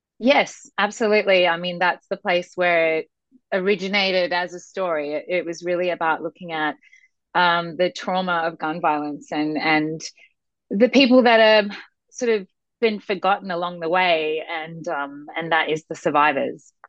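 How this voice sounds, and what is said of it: Australian accent. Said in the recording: “a little bit of an accent ... I'm from Sydney, Australia.”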